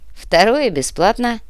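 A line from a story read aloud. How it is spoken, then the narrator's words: Wry grunt. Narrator (Russian): хмыкнул Артем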